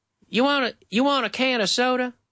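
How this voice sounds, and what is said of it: Put-on Southern American accent. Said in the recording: “that's not a New York accent. That's more of a Southern.”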